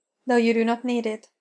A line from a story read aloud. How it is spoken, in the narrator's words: Spock said